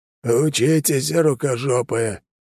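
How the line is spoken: Cheerful hoarse wheeze. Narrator (Russian): жизнерадостно прохрипел

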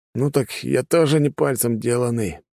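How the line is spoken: Hoarse, nearly fainting. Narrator (Russian): прохрипел я, стараясь не потерять сознание

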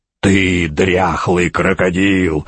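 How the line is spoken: Enraged growl. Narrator (Russian): рычал Шарлей, наливаясь кровью

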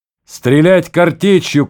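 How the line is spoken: Shouting. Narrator (Russian): крикнул Володя

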